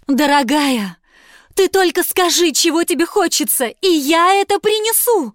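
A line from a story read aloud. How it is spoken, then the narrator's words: Pleading. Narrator (Russian): взмолился муж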